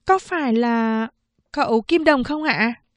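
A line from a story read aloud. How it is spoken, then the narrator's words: Hesitant question. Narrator (Vietnamese): Cảnh Liên Liên ngập ngừng hỏi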